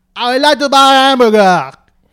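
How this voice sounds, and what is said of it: Loud exaggerated French accent. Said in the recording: “a man from Paris going to America. We also know Pink Panther. ... Quite loud, but good.”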